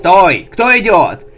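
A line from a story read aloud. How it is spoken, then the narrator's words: Guard barking from above. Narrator (Russian): рявкнул стражник с вершины воротной башни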